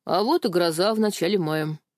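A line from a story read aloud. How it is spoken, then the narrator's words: Wry snort. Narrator (Russian): хмыкнул Вова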